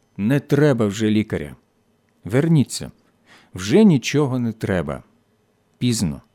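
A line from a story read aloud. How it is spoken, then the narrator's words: Quiet, German man. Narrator (Ukrainian): Німець тихо сказав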